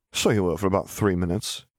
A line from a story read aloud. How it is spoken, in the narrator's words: Harry laughed